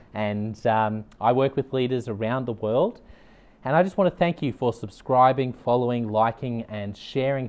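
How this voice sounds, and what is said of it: Australian accent. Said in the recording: “You can probably tell from my accent, I'm based in Australia”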